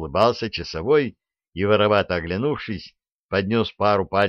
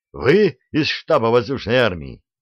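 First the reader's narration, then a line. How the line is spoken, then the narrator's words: Joyful yell. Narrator (Russian): радостно заорал он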